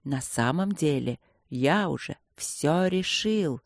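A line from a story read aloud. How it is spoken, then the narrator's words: Haughty whisper. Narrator (Russian): несколько высокомерным шепотом признался Инландер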